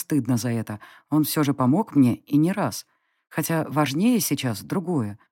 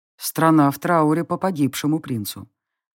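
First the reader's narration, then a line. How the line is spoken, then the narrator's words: Gloomy conclusion. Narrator (Russian): мрачно закончил он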